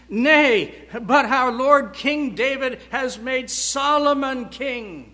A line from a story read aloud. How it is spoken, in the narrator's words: Jonathan exclaims